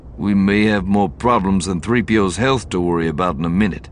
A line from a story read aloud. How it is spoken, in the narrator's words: Lando said grimly